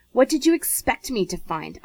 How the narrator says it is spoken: Isaac demanded crossly

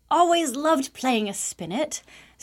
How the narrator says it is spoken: Star exclaimed

